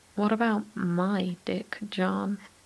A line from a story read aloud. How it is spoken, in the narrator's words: Ocelot chuckles